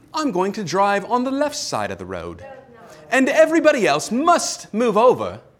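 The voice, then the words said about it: Poor put-on British accent. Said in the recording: “my poor British accent.”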